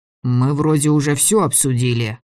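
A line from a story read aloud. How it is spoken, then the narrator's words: Through clenched teeth. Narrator (Russian): процедил Сева сквозь стиснутые зубы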